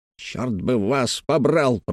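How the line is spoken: Grumbling. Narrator (Russian): пробурчал Хэммонд

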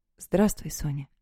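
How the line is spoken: Quiet, troubled voice. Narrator (Russian): ответил он негромко, и я только по одному голосу сразу же уловила, что что-то не так

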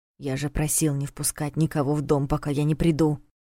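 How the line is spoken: Overly loud whisper. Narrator (Russian): слишком громким шепотом сказал он

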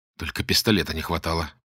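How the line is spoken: Muttered under breath. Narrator (Russian): под нос себе пробормотал Боголюбов

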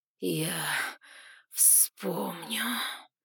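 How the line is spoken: Hissing with suppressed rage. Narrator (Russian): прошипел, превозмогая неконтролируемую злобу своей виверни, Гремиум

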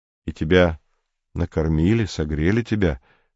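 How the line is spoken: Even-toned question. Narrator (Russian): спросил Комов ровным голосом

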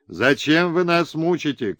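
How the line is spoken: Group of riders shouting. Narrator (Russian): кричала партия наездников-башкирцев

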